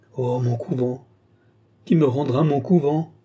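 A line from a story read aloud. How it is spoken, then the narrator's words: Tearful exclamation. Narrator (French): s'écria Lorenza en fondant larmes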